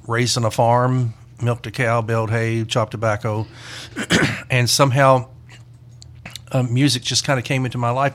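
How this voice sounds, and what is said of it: Mild mid-South American accent. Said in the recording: “he's got that, ... That mid-South end. ... A little bit. ... my accent's not nearly as bad as my siblings ... I get accused of having a Northern accent”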